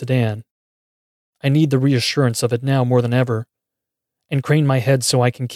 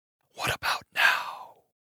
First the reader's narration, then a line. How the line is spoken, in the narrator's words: It hisses